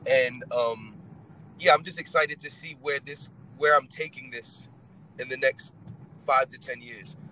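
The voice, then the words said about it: Mixed British-origin accent. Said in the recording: “Is this a British accent? Is this Australian? ... it's just very confused, but it originates in England”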